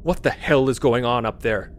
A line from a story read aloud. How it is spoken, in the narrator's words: Sisko roared